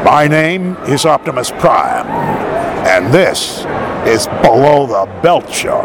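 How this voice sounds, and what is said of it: Optimus Prime character voice. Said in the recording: “do it in your Optimus Prime voice”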